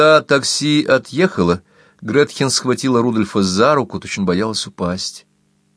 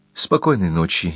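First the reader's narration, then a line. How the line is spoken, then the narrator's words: Barely audible whisper. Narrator (Russian): еле слышно прошептала Гретхен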